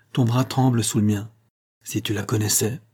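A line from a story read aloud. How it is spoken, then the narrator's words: Said sadly. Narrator (French): dit-il tristement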